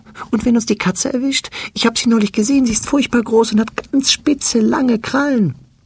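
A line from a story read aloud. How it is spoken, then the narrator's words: Fearful question. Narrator (German): Ängstlich fragt es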